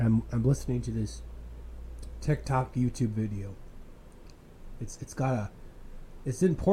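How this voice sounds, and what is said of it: Usual voice. Nothing is said of it.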